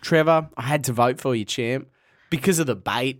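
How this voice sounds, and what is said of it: Imitates another person's voice. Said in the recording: “this is my impression of Sam”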